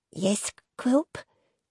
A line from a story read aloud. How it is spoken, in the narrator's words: replied meekly